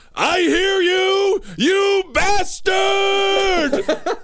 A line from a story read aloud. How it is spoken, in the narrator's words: yelled